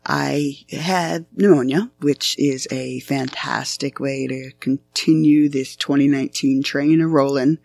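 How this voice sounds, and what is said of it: Badly damaged, strained voice. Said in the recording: “As you can hear, my voice is pretty profoundly screwed up”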